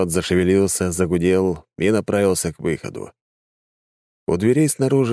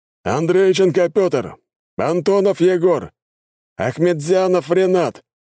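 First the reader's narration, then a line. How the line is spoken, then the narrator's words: Shouted roll call. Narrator (Russian): кричал военком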